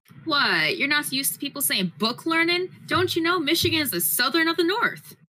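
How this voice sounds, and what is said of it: Weak put-on country accent. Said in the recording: “All I could do for country isms or a country accent, that's all I could muster.”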